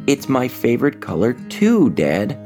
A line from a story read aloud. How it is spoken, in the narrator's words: Rogelio said happily